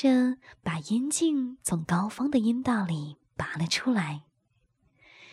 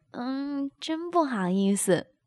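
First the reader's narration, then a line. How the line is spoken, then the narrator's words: With a smile. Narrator (Chinese): 高芳一笑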